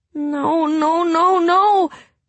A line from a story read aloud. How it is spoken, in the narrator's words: Hazel moaned